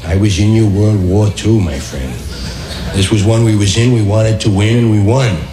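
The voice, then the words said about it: Older Irish working-class New York voice. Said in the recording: “the Irish voices were like that... Third generation, Eastern, Irish, Irish Catholic. Right, you see a working class accent... The older guys were like this... your first generation... your West Side Barfly”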